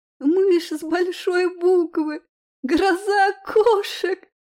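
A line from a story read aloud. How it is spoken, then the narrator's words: Sobbing. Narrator (Russian): всхлипывала она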